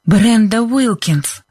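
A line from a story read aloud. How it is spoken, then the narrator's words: Breathed out. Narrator (Russian): выдохнула Либби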